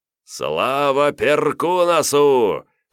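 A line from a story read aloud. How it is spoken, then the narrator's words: Loud laughing shout. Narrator (Russian): хохоча громко закричал Давмонт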